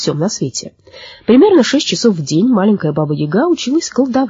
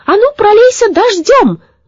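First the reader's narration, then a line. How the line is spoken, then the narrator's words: Shouted. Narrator (Russian): крикнула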